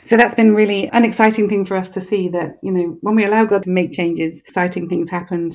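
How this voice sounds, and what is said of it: English accent. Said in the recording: “you can probably tell that although I live in Texas, I'm not actually Texan ... my accent ... an English accent”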